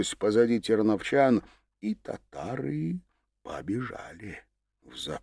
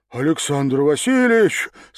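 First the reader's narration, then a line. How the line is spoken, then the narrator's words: Delighted breathy exclamation. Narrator (Russian): с восторгом выдохнул Демид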